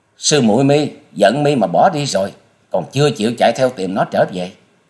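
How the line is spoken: Furious scream. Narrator (Vietnamese): Băng hồn tiên cơ tức tối thét lên

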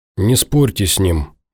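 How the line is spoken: Gloomy request. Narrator (Russian): мрачно просит Ворожцов

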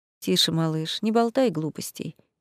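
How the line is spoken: Tired, smiling. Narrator (Russian): устало улыбнулся Реймонд

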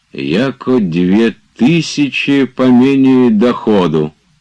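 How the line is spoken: Sudden loud delirious speech. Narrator (Russian): сказал вдруг громко в бреду

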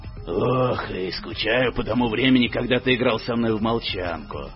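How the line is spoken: Grumbling. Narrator (Russian): проворчал Гло

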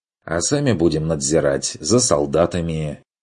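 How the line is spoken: Smirking snort. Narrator (Russian): хмыкнул Бруно

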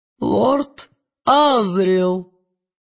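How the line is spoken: Solemn announcement. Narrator (Russian): торжественно произнес магистр

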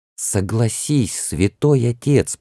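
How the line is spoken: Whisper holding back indignation. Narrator (Russian): проговорил шепотом, еле сдерживая свое возмущение

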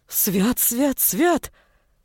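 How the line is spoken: Exclaiming. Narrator (Russian): воскликнул мужичок

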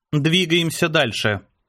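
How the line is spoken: Dry, curt. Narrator (Russian): сухо бросила Ева

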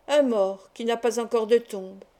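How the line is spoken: Cold reply, doctor. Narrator (French): répondit froidement le docteur Antekirte

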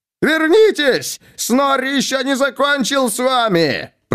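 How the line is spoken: Roaring. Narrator (Russian): проревел он

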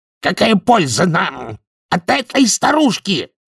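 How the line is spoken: Demon yelling. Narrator (Russian): завопил демон с репейником

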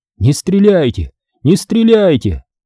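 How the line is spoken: Yelling. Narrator (Russian): заорал я

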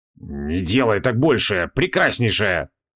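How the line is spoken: Through gritted teeth. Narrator (Russian): процедил Криол

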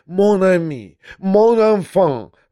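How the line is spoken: Sudden frightened exclamation. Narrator (Russian): воскликнул он вдруг, уже вполне не скрывая своего испуга

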